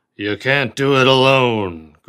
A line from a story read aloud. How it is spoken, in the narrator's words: growled Cochrane